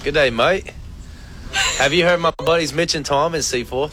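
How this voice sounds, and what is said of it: Attempted Australian accent, sounds British. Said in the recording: “put on his best Australian accent ... I sound like I'm from London ... It does sound very British”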